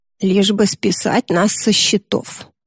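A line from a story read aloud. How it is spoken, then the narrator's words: Mutter. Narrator (Russian): бормочет Юдора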